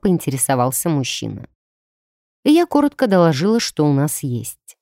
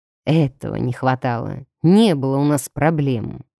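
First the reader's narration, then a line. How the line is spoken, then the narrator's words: Grim, through teeth. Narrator (Russian): мрачно процедил вампир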